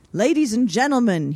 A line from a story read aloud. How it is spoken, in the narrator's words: he called out